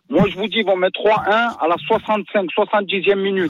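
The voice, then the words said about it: Parisian French accent. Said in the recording (French): “T'as un vrai accent parisien.”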